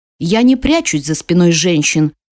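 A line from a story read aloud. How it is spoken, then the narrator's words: Growled. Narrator (Russian): зарычал Амил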